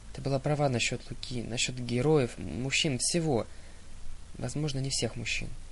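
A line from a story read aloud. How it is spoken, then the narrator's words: Muttering. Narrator (Russian): пробормотала Зоя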